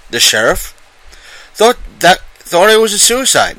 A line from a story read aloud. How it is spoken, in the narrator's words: said shakily